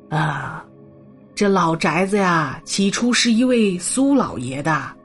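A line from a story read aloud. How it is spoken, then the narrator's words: Slow, unhurried telling. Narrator (Chinese): 七姑缓缓的说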